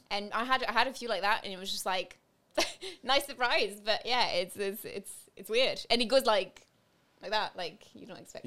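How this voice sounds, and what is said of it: English accent with an Irish twang. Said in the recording (French): “You've got a bit of Irish in your English accent as well ... There's an Irish twang in there as well.”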